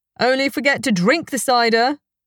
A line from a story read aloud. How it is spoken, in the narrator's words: a voice came from the audience